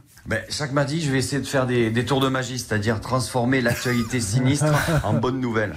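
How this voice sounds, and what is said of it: Southern French accent. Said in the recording (French): “avec mon accent du Sud”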